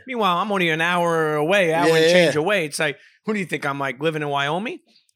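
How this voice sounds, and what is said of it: New York accent. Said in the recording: “hey, your accent. You know, what are you from, New York?”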